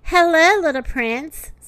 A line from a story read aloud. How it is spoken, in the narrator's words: said the animals